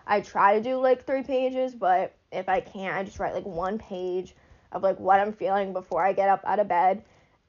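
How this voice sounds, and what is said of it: Breathless, out-of-breath speech. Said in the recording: “I'm so sorry, I'm out of breath.”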